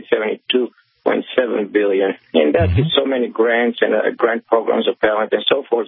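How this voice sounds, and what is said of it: Foreign accent. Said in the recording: “as you can tell by my accent, I'm a foreigner”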